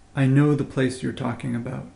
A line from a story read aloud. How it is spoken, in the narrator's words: says the dragon